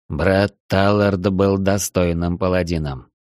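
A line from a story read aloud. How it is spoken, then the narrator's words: Dejected, shocked voice. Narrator (Russian): упавшим голосом произнес Шарда, не ожидавший, что вместе с Арчибальдом этот мир покинул еще один паладин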